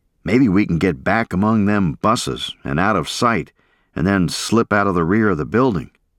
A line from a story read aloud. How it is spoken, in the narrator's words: said